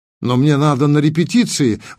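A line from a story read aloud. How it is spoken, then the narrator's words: Exclaimed. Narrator (Russian): воскликнул Максим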